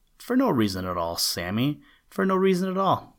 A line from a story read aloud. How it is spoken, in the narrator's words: replied